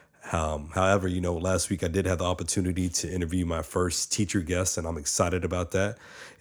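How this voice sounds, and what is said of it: Slightly raspy voice. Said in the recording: “my voice is still a little raspy”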